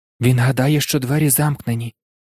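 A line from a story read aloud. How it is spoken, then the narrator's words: Whispered. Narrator (Ukrainian): прошепотів Гаррі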